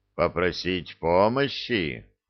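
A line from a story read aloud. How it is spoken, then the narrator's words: Thoughtful. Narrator (Russian): задумчиво повторил Маран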